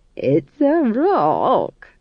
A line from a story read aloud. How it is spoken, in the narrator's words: chuckled